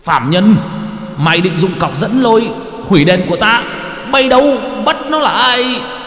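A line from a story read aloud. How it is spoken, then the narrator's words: Official's hissing shriek. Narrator (Vietnamese): Quan nọ vừa nhìn thấy thì rít lên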